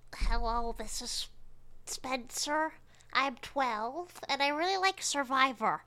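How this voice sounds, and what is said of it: Funny child character voice. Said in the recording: “I was going to do a funny voice”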